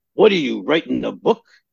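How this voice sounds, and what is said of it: Imitates another person's voice. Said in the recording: “actually a very good imitation of my dad. ... That's actually the way he talked.”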